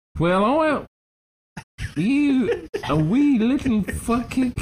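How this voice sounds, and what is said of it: Fake abrasive, drunken Scottish accent. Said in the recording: “the strange, fake Scottish accent that was coming out of this fairy's mouth ... a made-up accent used by performers on the thespian stage when they wanted to sound abrasive and drunk”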